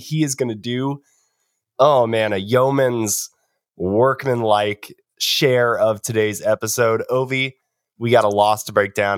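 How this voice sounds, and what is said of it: Sick, hoarse-sounding voice. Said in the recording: “as you can hear from my voice. Playing a little hurt today. I've been sick”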